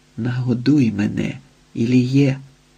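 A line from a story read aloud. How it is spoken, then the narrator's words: Excited whisper. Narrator (Ukrainian): прошепотіла збуджено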